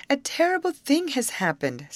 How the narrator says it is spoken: said she, her voice choked with sobs

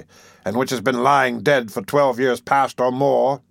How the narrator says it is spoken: cried Monks impatiently

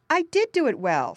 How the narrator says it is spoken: snapped Jerry crossly

